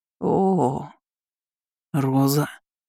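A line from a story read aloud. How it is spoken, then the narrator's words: Hoarse muffled choking rasp. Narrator (Russian): прохрипел Ричард глухо, будто тонул и задыхался от этого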